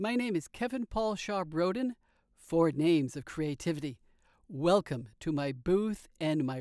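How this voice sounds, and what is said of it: Usual voice. Nothing is said of it.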